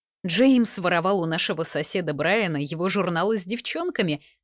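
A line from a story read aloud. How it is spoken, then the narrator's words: Supportive, quietly giggling. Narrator (Russian): пытается поддержать меня Ребекка, тихо хихикая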